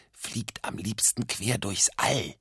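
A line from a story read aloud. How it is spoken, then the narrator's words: Whispering. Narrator (German): Doppel-Otto flüsterte weiter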